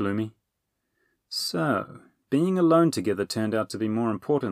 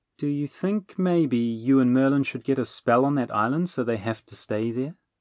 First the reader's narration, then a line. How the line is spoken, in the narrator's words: Bernie asked sweetly